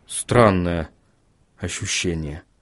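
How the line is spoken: Mumbling. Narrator (Russian): пробормотал Вильям

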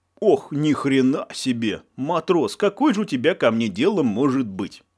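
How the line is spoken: Menacing. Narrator (Russian): Грозно насупился мичман

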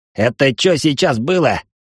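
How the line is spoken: Growled. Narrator (Russian): прорычал Куртюн

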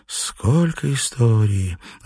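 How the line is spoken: Sigh. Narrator (Russian): вздохнула она

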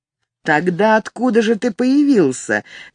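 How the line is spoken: Sarcastic. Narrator (Russian): язвительно спросил Альфред

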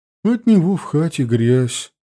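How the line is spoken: Tired sigh. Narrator (Russian): бабушка устало вздохнула

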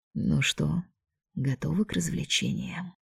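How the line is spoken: Dragon whispering. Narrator (Russian): шепнул дракон

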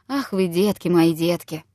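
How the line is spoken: Sighing. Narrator (Russian): вздохнет и скажет

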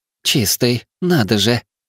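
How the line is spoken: Slightly husky female voice. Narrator (Russian): сказала она чуть хрипловато

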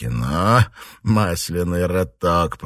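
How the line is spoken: Hissing. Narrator (Russian): прошипел сержант Ли

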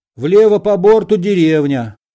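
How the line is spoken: Shout. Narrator (Russian): крикнул Балаганов

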